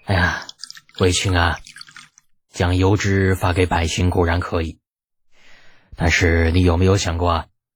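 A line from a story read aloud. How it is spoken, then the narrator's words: Helpless sigh. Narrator (Chinese): 李二无奈的叹了口气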